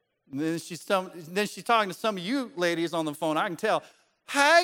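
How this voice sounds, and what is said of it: Usual voice. Nothing is said of it.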